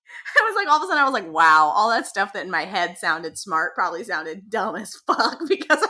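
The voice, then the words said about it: Congested, nasal voice. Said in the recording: “that's probably sounds really nasal ... I sound like a mess”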